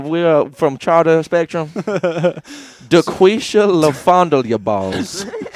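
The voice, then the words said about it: Slow, exaggerated phonetic enunciation. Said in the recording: “say it all slow like that, like all phonetically ... enunciate that”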